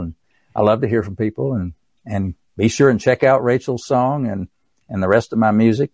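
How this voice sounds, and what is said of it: East Tennessee accent. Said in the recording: “my East Tennessee accent”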